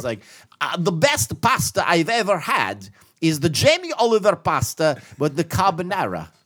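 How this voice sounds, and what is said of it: Italian accent with British twang. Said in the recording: “He talks like this. It's like totally like super Gino Italian, but with a British accent ... sounds like he's from Italy, like an immigrant, but then it sounds like he grew up in Leeds”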